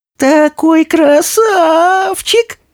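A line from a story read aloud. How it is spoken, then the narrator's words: Squeak. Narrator (Russian): пискнула желтая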